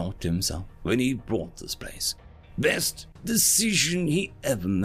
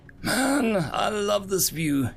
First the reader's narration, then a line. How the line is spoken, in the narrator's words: he sighed